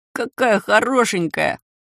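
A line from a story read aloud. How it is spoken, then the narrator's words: Delighted little voice overhead. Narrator (Russian): неожиданно сказал кто-то прямо надо мной, до невозможности восхищенным голоском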